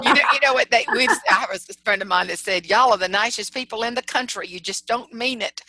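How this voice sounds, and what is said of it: Southern American accent. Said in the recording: “I love your voice, by the way, because I love that Southern accent that you have”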